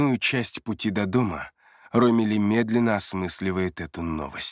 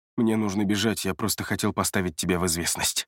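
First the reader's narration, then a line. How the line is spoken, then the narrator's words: Quick speech. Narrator (Russian): быстро говорит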